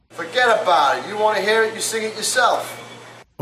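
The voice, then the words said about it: Heavy put-on New York accent. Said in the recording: “heavy regional accents ... Now let's have someone from New York sing it. ... Overly strong regional accents”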